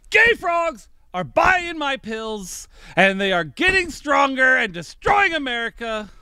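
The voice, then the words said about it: Loud yelling imitation of another's voice. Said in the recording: “when I'm yelling ... It just distorts, man ... when I do my Alex Jones impression, like, I just usually blow out.”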